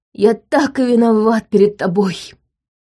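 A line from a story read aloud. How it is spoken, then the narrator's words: Sobbing. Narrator (Russian): Чарльз всхлипнул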